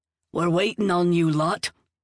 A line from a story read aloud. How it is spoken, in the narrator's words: he barked